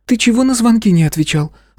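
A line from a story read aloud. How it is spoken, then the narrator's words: Question with heavy breathing. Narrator (Russian): спросила княжна и пару раз шумом вздохнула и выдохнула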